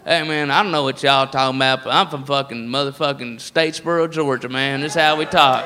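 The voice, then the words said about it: Put-on redneck accent. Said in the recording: “the redneck voice”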